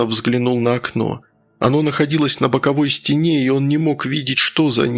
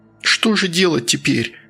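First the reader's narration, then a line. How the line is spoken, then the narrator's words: Sobbing child. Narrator (Russian): всхлипнул мальчик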